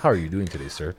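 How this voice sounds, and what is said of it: Call center agent voice. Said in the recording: “in a call center voice.”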